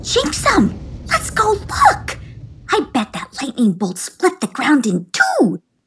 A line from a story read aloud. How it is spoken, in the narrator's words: squealed